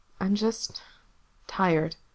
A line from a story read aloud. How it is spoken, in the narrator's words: he told Corse quietly